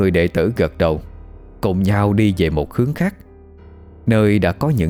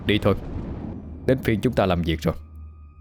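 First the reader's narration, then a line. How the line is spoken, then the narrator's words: Cold quiet voice. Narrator (Vietnamese): vẻ mặt lạnh lùng, nhỏ giọng nói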